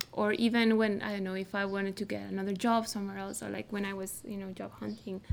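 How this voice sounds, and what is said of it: Mexican accent. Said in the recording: “I still have like Mexican accent.”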